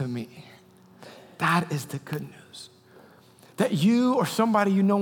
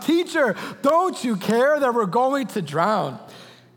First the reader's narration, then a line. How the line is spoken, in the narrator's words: Disciples woke him up shouting